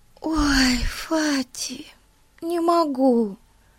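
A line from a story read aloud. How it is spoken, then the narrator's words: Sad sigh. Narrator (Russian): печально вздохнула Бетси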